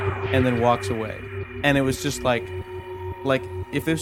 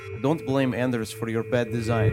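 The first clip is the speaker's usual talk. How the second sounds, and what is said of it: Put-on Russian accent. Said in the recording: “is he from Ukraine or Russia? ... from Russia ... when I do his accent, it'll be clear”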